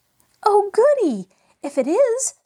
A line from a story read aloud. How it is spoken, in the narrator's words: squealed Mabel